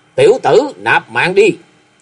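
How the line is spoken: Roaring. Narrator (Vietnamese): Khâu Sĩ Trân, tiếng gầm

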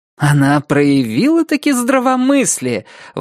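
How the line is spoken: Exclaimed. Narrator (Russian): воскликнула миссис Сама рассудительность

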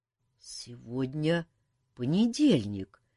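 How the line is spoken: Uncertain, strained. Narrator (Russian): неуверенно выговорил Кантор

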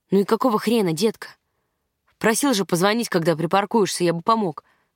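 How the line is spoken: Sharp, curt. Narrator (Russian): бросил он резко

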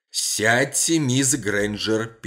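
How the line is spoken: Judge interrupting, very angry. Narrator (Russian): перебивая прокурора, сказал судья Моррен весьма зло

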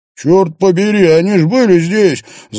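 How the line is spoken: Shouting over noise. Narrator (Russian): заорал он, перекрикивая музыку и гул голосов

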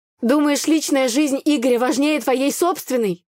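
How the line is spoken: Shouted after someone. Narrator (Russian): выкрикнула я в спину парню

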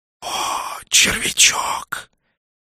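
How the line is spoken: Hissed. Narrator (Russian): прошипел Нак

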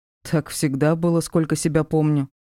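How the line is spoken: Scoffing grunt. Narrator (Russian): хмыкнул Диар

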